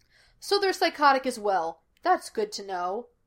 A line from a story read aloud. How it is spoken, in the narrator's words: Gus said stiffly